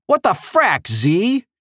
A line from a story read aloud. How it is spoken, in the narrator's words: she shouted